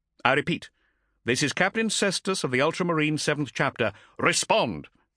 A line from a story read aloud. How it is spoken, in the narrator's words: barked